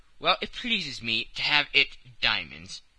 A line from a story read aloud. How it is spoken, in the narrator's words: replied Colonel Proctor, in an insolent tone